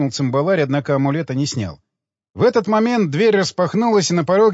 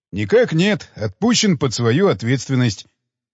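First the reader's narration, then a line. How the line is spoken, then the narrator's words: Joyful announcement. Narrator (Russian): радостно сообщил он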